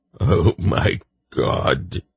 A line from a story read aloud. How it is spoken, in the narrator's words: Senji whimpered